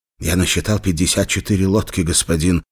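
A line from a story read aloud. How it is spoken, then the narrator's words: Hurried speech. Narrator (Russian): торопливо сказал Хамзат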